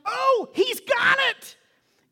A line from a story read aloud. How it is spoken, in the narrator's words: this woman screams out